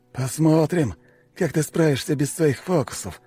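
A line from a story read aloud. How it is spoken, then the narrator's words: Through clenched teeth. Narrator (Russian): процедил он сквозь зубы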